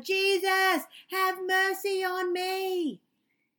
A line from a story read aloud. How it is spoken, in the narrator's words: just yelled louder and louder